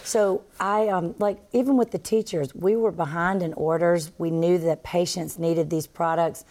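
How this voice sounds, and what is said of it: Southern American accent. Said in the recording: “I do have a Southern accent”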